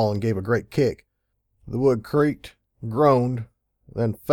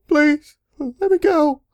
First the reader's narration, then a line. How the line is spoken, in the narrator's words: she sobbed